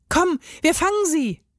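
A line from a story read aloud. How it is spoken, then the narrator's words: Calling out. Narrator (German): rief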